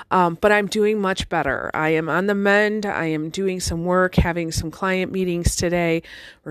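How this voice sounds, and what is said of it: Congested, recovering voice. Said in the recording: “I lost my voice for many days. I am still dealing with a little bit of congestion and cough”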